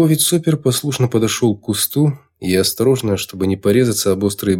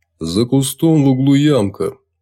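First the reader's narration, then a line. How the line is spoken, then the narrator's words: Sepulchral voice. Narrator (Russian): за могильным голосом продолжил майор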